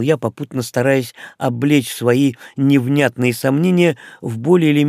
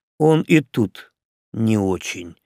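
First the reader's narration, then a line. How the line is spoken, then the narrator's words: Grumbled. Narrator (Russian): буркнул граф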